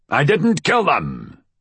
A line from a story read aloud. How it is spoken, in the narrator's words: he shouted